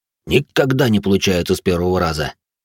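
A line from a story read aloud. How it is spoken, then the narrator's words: Heavy sigh. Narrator (Russian): Рэй тяжело вздохнул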